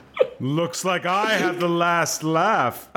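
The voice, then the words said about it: Cartoon villain voice. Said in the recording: “Like a cartoon villain ... Let's all go around and do our oh ho ho cartoon”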